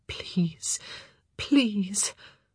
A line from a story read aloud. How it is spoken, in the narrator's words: whispering